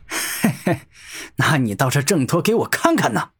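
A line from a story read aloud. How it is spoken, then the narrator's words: Smug, laughing loudly. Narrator (Chinese): 元素王得意的大笑道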